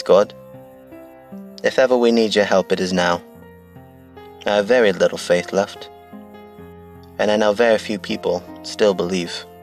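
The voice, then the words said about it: Poorly done put-on accent. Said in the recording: “the shit accent I did”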